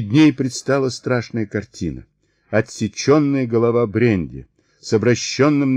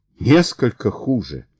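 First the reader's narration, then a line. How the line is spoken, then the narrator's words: Exclaimed. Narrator (Russian): воскликнула Кристина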